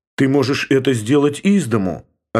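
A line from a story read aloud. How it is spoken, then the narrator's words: Plain. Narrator (Russian): ответила Елена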